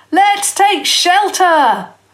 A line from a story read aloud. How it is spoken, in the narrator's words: Sam Thornton called loudly, wildly